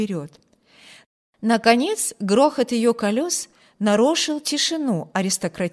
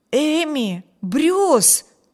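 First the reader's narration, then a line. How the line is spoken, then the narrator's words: Astonished exclamation. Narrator (Russian): воскликнул изумленный Виберт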